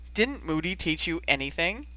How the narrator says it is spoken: giggled

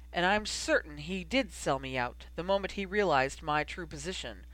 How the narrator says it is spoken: Snape replied smoothly

